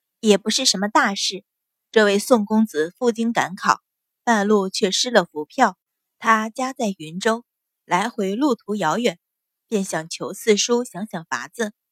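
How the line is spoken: Laughing. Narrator (Chinese): 阮云欢笑道

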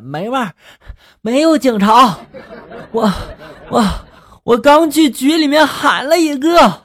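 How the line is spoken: Breathless. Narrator (Chinese): 助手……气喘吁吁的……说了

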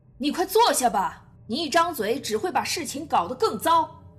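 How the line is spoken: Loud scolding. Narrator (Chinese): 曼森就会大声呵斥道

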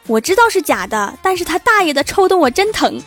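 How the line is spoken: Joyful shout. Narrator (Chinese): 欢喜大叫

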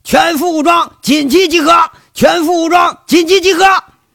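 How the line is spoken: Serious urgent shouting. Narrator (Chinese): 吴铁军一脸严肃，喊

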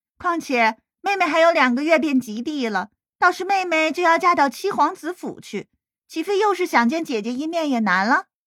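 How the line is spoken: Laughing. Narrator (Chinese): 他继续笑道

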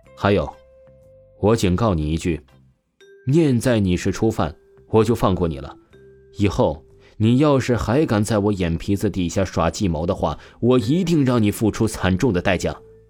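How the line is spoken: Calm flat tone. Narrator (Chinese): 王峰淡淡说道

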